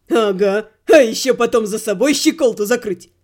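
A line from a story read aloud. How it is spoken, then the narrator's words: Snorting. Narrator (Russian): Хмыкнул сэр Кит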